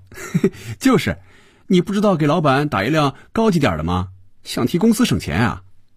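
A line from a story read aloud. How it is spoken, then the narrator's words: Laughing. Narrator (Chinese): 菲比笑着对肖斌说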